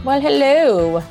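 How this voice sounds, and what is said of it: Cheery, deliberately bad put-on accent. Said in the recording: “You're very cheery today. ... I'm very cheery with my bad accent.”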